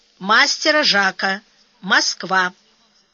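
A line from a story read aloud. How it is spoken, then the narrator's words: Deep bass, huge man. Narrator (Russian): пробасил Калистратов, мужчина гигантского роста с бычьей шеей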